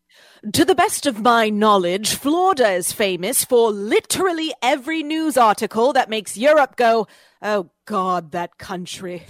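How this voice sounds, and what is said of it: Put-on British accent. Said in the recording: “you have to do it in a British accent.”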